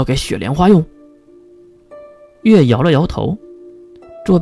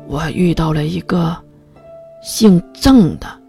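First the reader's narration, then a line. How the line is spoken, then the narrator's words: Soft whisper. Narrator (Chinese): 月 轻声细语了一句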